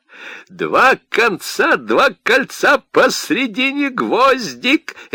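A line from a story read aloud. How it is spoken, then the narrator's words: Energetic rhythmic chant. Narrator (Russian): Энергичным ритмом считалки выговорил Котя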